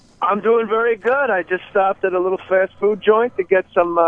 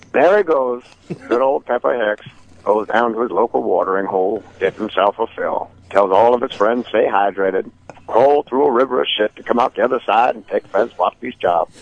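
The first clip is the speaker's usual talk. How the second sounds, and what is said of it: Morgan Freeman impression. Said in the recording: “You want Morgan Freeman to narrate ... the impression was dead on. It was actually better than anyone else's Morgan Freeman”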